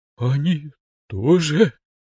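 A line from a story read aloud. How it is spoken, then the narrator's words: Frightened whisper. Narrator (Russian): напуганным шепотом спросил тренер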